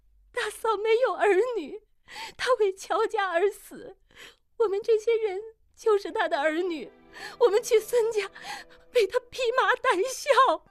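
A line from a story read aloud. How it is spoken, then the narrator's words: Crying. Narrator (Chinese): 玉汉哭道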